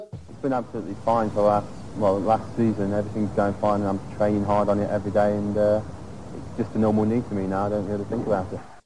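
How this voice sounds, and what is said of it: Southern English accent. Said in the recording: “It's not a Birmingham accent... it's more southern, isn't it?”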